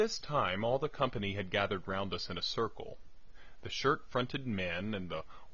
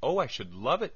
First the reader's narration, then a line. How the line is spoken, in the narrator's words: cried Agatha